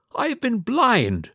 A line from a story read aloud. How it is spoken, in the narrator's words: cried the colonel